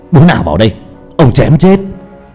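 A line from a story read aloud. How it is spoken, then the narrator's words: Roaring. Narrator (Vietnamese): gầm lên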